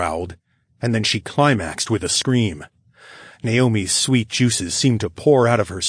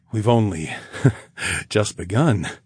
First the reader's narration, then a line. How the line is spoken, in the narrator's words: I chuckled